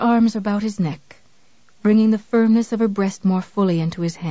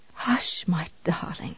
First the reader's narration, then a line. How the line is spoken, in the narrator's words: Misery whispered